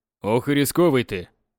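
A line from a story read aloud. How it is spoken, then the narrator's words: Snort. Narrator (Russian): хмыкнул Апраксин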